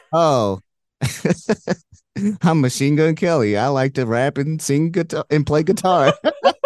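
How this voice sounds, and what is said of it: Weak impression of another person's voice. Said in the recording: “I have very bad impressions. Like, usually my impression is just saying who I'm impersonating.”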